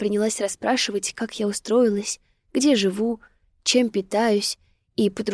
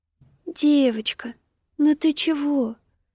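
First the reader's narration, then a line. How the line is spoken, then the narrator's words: Gentle affectionate voice. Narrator (Russian): ласково проговорила она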